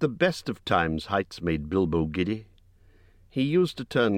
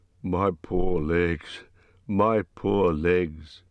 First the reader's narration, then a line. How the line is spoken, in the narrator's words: But Dory groaned